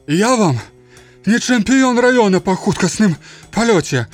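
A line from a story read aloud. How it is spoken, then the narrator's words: Moan. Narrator (Belarusian): прастагнаў жанжах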